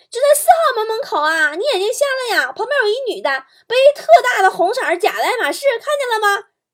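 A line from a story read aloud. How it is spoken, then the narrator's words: Impatient loud yelling, phone. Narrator (Chinese): 一个女孩 可能等了特别久 这姐们特别大声的对着电话嚷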